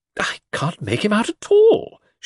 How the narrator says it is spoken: she said in an aggrieved voice

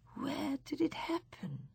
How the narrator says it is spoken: She whispered

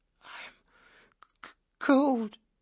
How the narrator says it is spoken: Snowden whimpered

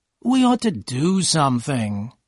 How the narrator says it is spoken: said in a tired voice

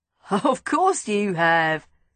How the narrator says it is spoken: he laughed

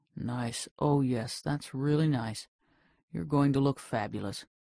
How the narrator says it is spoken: he murmured

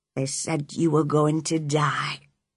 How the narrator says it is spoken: he whispered

